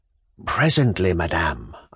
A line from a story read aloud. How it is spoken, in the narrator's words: whispered